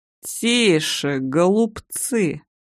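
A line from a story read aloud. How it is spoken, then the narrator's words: Creaky voice. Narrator (Russian): проскрипел Костяк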